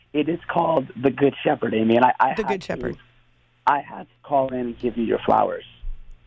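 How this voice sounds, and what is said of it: Slightly hoarse voice. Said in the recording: “My voice is a little hoarse right now because I was shouting so much”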